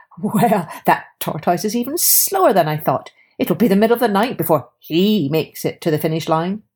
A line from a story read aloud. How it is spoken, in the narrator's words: Hare laughed and said